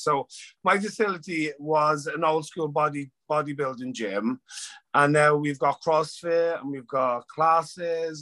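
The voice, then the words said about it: Irish accent. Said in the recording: “you're not from the US, as people can hear with your accent ... I'm Irish”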